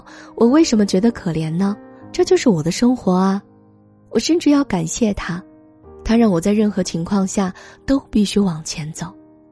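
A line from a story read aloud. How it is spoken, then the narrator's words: Faint smile. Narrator (Chinese): 他浅浅的笑道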